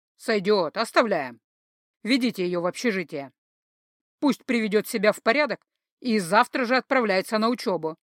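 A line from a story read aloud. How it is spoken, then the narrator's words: Deep chesty bass. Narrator (Russian): ответил неведомо кто грудным басом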